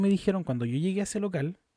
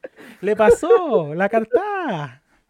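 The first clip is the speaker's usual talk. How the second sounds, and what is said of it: Put-on Argentine Spanish accent. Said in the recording (Spanish): “Obviamente con acento argentino, no como yo estoy.”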